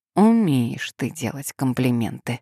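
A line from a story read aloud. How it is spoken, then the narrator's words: Muttered. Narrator (Russian): пробормотала она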